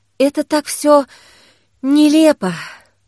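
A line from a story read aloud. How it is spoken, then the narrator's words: Sighing. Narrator (Russian): вздохнула Кира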